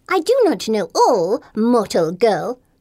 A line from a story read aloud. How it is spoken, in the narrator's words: Golden Wing snaps